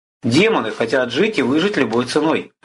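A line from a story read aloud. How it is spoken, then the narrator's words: Plain. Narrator (Russian): ответил Арес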